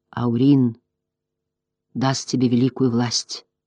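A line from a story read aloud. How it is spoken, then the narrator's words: Solemn. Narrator (Russian): произнес он торжественно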